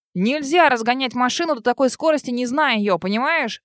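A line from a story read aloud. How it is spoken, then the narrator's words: Yelling. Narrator (Russian): орал он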